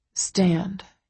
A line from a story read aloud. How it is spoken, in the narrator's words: he says softly